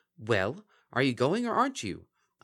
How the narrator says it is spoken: The changeling snapped

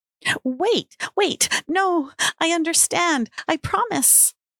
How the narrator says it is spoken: she cried

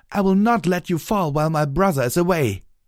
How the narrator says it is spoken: The nearby legionnaires shouted in unison

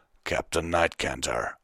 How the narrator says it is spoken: Vanguard said sternly

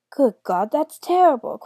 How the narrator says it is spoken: cried the first raven

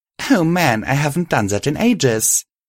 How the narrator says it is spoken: I said as more giggles escaped my mouth

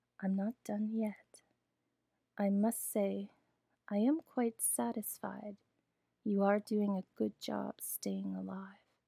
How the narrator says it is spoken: Miss Laura said calmly

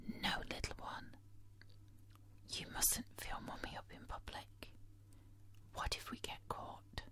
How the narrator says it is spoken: whisper in his ear

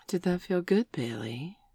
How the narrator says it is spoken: She purred

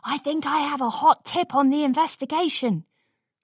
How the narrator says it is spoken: whispered

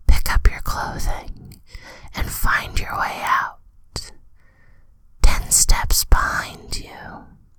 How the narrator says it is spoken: hear her whisper

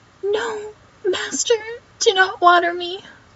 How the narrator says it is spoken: The plant cried out

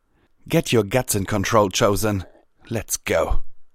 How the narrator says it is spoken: Pyavella called out to her

